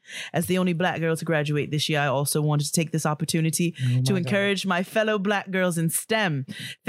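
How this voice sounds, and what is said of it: Put-on accent, badly done. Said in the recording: “I'm sure my accent is terrible. ... It's so bad.”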